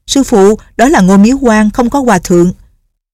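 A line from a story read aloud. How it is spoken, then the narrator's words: Calling out from afar. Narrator (Vietnamese): từ xa đã kêu lên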